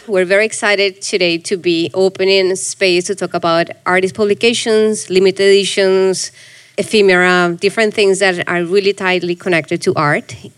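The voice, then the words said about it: Congested, sick-sounding voice. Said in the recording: “I'm getting out of a nasty cold, so I hope my voice is okay.”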